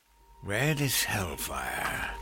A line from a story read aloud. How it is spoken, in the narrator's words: he murmured